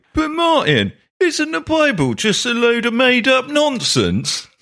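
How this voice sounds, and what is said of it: Put-on London accent. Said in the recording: “I can do that accent, by the way, because both my parents were from London ... My London accent.”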